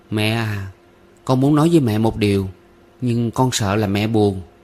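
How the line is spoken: Hesitant reply. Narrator (Vietnamese): Cô gái ngập ngừng, trả lời trong bóng đêm

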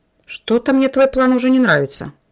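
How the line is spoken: Grumbling. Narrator (Russian): проворчал Семен

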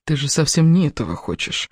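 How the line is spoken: Whispered. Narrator (Russian): прошептал Кевин

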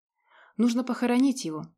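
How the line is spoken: Sigh. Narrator (Russian): вздохнула Женя

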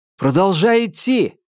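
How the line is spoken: Shouting. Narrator (Russian): крикнул Томас Минхо

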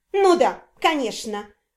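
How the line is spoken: Venomous snort. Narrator (Russian): ядовито фыркнула Синтия

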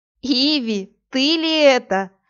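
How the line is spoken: Laughing. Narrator (Russian): рассмеялась Верлена

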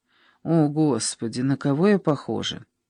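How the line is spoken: Sigh. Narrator (Russian): Она вздохнула

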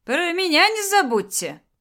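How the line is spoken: Shout, then pleased laughter. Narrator (Russian): крикнул вслед уходящий Беате Слава и довольно захохотал

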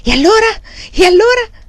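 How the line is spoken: Exclaimed over shoulder. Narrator (Italian): esclamò alle proprie spalle

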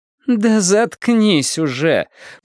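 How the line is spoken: Groaning. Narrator (Russian): простонала Лоррейн

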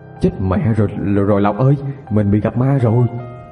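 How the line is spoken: Stammering. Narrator (Vietnamese): Anh lắp bắp

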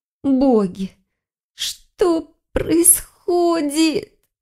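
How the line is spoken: Pleading. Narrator (Russian): Взмолилась она

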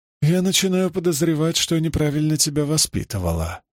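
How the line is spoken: Sighing. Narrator (Russian): вздохнула Клара

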